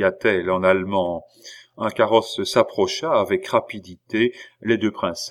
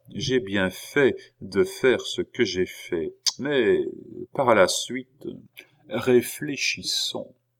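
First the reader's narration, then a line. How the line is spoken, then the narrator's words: Speaking very quietly. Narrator (French): dit-elle tout bas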